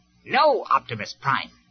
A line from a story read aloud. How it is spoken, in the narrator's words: Starscream replied firmly